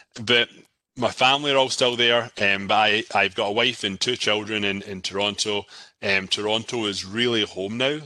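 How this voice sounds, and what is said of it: Scottish accent. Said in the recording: “from Scotland, I've still got the accent, as you can hear.”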